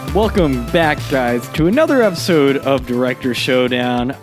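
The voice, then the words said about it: Enthusiastic radio announcer voice. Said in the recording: “I'm putting on my radio announcer voice. ... I'm not exactly this enthusiastic. ... Fake enthusiasm.”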